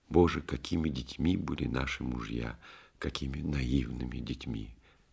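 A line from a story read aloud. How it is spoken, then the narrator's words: Tearful whisper. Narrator (Russian): его жена Нина со слезами шептала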